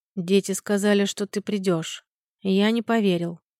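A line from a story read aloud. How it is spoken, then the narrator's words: Quiet speech. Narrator (Russian): негромко проговорил Мартин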